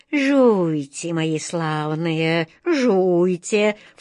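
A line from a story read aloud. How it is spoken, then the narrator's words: Insinuating coaxing voice. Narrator (Russian): вкрадчивым голосом уговаривала красотка Джина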